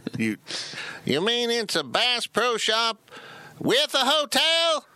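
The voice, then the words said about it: Put-on Oklahoma accent. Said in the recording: “I don't know why they sound like they're from Oklahoma. ... That's my one accent that I do on the podcast”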